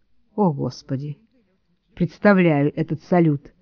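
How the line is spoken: Muttered. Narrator (Russian): пробормотала я

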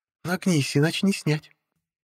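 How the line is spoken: Soft tone. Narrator (Russian): Мягким тоном продолжила она

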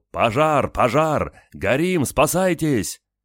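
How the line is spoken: Yelled. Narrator (Russian): Игорь заорал

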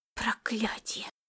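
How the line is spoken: Whisper. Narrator (Russian): прошептала Фапивата

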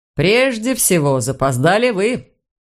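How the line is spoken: Calm. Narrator (Russian): спокойно ответил Флоримон

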